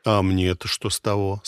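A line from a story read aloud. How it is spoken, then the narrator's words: Calm. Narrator (Russian): спокойно ответил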